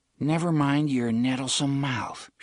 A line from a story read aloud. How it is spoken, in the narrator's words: said